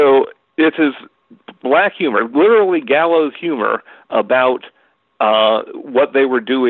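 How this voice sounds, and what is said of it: Usual voice. Nothing is said of it.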